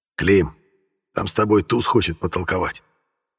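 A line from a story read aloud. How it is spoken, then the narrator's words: Low voice. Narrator (Russian): негромко говорит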